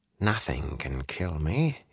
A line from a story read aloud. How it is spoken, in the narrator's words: he muttered, scowling